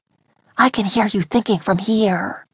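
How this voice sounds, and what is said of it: Hushed voice. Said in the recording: “in a hushed voice”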